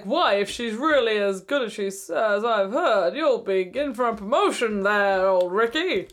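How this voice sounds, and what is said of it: Peter Dinklage impression. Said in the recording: “That's a really good impression of Peter Dinklage.”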